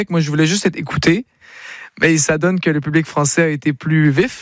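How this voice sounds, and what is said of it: Slight Québécois French accent. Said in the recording (French): “Est-ce que tu l'entends, mon accent québécois? ... en parlant un tout petit peu”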